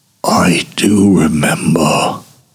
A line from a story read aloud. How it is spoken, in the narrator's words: whispers